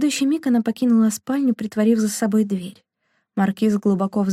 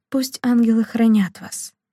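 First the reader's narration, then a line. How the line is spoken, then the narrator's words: Soft gentle voice. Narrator (Russian): Мариетта мягко произнесла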